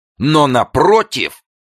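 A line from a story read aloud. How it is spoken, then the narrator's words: Harsh shout. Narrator (Russian): кричал он резким голосом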